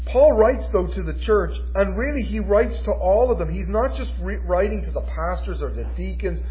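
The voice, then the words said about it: Noticeable regional accent. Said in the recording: “it sounded like you were saying the ornery believer ... I know my accent is a little bit funny”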